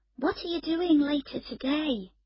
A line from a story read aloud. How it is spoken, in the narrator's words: She asked sleepily